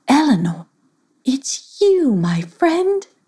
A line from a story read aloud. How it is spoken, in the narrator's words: she said sweetly after she recognized her old friend